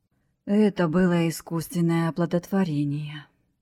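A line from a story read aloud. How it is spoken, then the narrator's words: Sighed. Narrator (Russian): вздохнул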